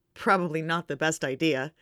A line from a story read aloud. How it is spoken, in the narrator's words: John chuckles